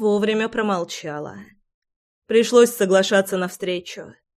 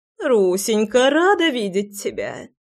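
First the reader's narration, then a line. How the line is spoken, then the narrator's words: Sweet chirping voice. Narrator (Russian): Прощебетала она милым голосом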